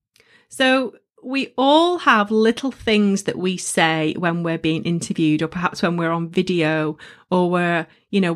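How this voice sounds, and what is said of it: Northern English accent. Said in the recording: “I'm a Northern girl and I embrace my accent and it's up there for all of you to hear”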